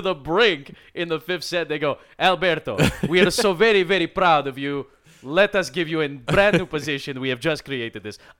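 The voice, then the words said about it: Put-on Italian accent, drifting. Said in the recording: “I don't know if I was drifting from the Italian accent. I feel like I started okay. ... It sounded solid to me. ... It started to drift a little bit.”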